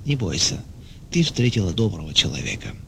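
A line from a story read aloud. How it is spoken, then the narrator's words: Gentle whisper. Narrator (Russian): А другой ласково шептал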